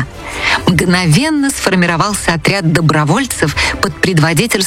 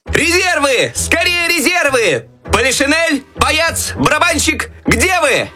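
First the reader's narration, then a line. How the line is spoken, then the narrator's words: Desperate shouting. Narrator (Russian): отчаянно кричал Щелкунчик, надеясь на помощь еще оставшихся в шкафу войск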